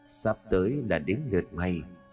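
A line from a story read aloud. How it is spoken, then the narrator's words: Ghost's satisfied faint murmur. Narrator (Vietnamese): vong hồn của Hà đứng bên cạnh nở một nụ cười mãn nguyện, rồi môi của nó khẽ mấp máy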